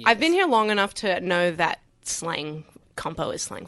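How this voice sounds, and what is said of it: American accent with some Australian. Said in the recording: “I could hear the accent ... American, okay, sort of. American-Australian, both.”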